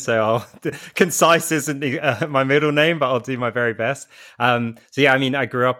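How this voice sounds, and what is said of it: British English accent. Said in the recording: “I'm a huge fan of your accent ... we are known for being loquacious in Britain”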